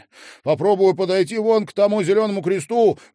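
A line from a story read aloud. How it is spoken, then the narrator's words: Shout. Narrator (Russian): крикнул Малькольм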